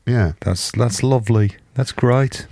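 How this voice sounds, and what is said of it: Put-on Birmingham accent. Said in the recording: “I don't know why I'm doing a Birmingham accent... You're suddenly doing it in a Birmingham accent”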